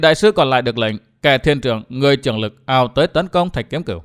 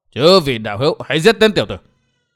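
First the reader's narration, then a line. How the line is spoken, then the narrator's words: Monk's commanding shout. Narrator (Vietnamese): Đạt ma thần tăng quát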